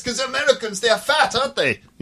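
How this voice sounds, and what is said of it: Put-on accent. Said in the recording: “I think there was any need for that accent either.”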